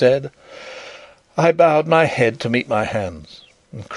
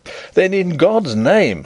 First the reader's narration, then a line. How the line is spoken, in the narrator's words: I cried